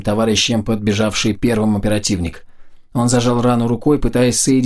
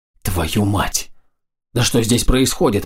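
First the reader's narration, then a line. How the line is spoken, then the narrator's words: Whisper. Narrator (Russian): прошептал пилот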